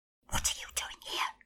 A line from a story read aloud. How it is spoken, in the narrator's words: hissed